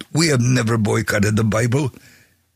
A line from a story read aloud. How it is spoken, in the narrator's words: One yelled